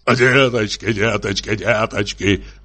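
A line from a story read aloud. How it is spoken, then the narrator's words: Fast muttering. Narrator (Russian): бормотал он быстро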